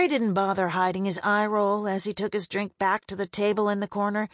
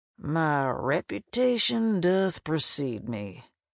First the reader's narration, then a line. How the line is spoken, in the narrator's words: muttered into his glass